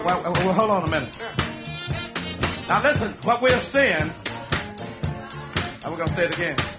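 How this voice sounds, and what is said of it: Mississippi Southern accent. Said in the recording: “this Mississippi accent I got”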